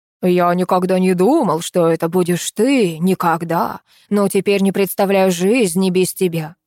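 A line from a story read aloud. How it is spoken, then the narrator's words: Reading in deep bass. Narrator (Russian): басом читает Катя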